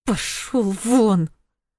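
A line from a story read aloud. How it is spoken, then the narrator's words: Hissed through teeth. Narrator (Russian): Сквозь зубы процедила она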